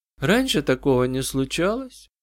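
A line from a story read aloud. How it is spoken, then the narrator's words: Quiet, lifeless girl's voice. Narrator (Russian): Девочка говорила тихо, безжизненным голосом, словно вспоминая что-то давно прошедшее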